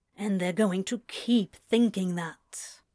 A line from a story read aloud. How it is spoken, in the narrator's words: Crowley grumbled